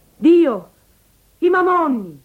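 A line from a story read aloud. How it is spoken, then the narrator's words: Shouting. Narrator (Italian): costei fu sentita gridare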